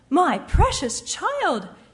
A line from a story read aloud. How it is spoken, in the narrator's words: his mother cried